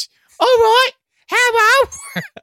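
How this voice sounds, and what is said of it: Put-on Cockney accent. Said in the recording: “am going to go Cockney on ... This is my best Cockney accent.”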